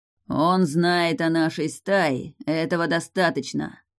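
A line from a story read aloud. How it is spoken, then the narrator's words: Growl from behind. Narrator (Russian): прорычал за спиной Гром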